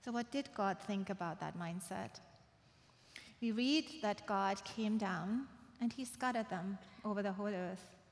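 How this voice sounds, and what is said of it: Speaker with noticeable accent. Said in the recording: “That's why I have an accent.”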